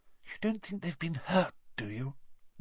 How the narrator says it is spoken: whispered Hermione

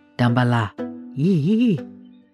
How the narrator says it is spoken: She writhed seductively, hissing

